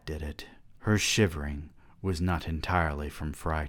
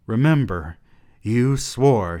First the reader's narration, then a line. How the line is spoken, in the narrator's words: she reminded him nervously